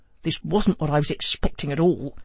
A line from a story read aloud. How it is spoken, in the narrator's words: Joe grumbled